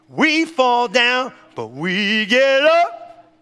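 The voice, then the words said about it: Imitates another person's singing voice. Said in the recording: “That's a real bad Donnie McClurkin impersonation.”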